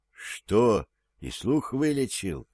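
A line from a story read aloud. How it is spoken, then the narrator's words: Whisper. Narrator (Russian): прошептал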